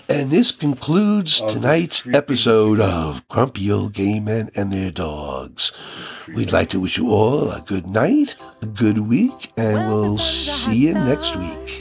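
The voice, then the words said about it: Announcer-style radio voice. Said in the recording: “radio voice”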